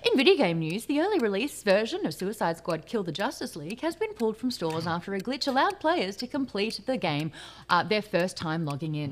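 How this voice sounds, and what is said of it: Newsreader voice. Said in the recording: “put on my newsreader voice,”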